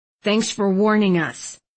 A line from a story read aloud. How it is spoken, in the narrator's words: Thistle grumbled